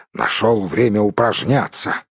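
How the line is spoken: Grumbling. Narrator (Russian): проворчал Бомбур

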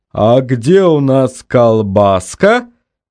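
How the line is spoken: Happy purr. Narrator (Russian): счастливо промурлыкал он

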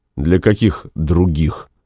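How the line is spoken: Gloomy question. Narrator (Russian): мрачно спросил Максим

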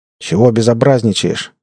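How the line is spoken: Angry question. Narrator (Russian): сердито осведомился

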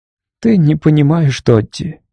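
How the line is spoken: Gentle. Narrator (Russian): мягко сказала она

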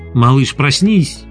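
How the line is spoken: Cheerful female ghoul. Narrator (Russian): весело сказала упыриха

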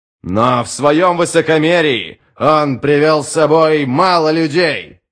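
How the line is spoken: Shouted. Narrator (Russian): крикнул Адем

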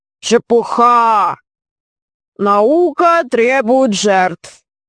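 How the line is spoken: Deep bass reply. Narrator (Russian): ответил басом аспирант Проси

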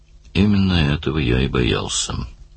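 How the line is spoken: Gloomy remark. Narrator (Russian): мрачно заметил Даллас

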